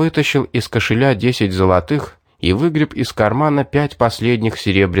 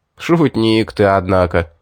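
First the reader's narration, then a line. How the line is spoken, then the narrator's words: Laughing, several men. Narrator (Russian): засмеялись паромщики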